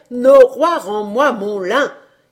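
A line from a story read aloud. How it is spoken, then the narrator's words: Old fellow shouting. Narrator (French): Mais le bonhomme criait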